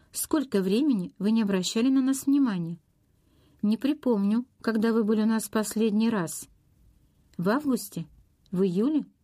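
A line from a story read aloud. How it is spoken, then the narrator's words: Carefree laugh. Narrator (Russian): Она беззаботно рассмеялась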